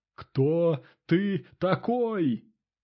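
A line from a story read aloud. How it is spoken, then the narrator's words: Yelling. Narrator (Russian): заорал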